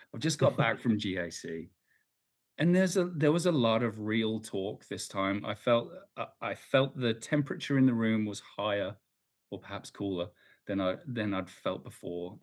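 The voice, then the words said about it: Slightly hoarse voice. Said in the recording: “I've just got back from GAC. That's why I'm talking a little hoarse.”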